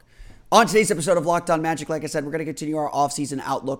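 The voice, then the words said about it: Slightly hoarse voice. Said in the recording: “my voice is still a little hoarse”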